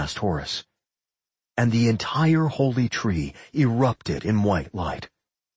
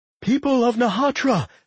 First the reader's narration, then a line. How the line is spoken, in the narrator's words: Father Jonas cried out